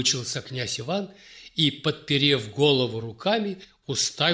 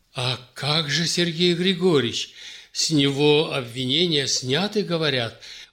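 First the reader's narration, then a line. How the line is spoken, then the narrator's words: Anxious, hopeful mutter. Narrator (Russian): взволнованно пробормотал Иван, надеясь хоть об одном родственнике услышать хорошую новость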